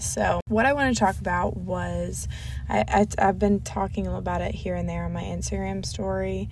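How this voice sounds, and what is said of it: Raspy, partly lost voice. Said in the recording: “lost my voice. So I'm sounding a little raspy,”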